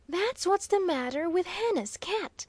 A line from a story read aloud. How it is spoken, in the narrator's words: cheerfully chipped in the irrepressible Waldo